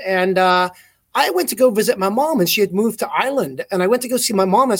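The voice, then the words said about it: Mixed English, South African, American accent. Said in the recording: “People here in the U.S. think it's a a Boston accent because it's sort of this conglomeration of English, South African, mostly American, a lot of Texan”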